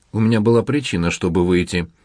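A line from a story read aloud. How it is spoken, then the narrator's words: Sharp tone. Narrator (Russian): резко сказала Гвендолин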